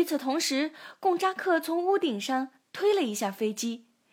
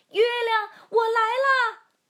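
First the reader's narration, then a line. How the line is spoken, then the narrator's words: Loud shout. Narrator (Chinese): 提莫龙大声喊道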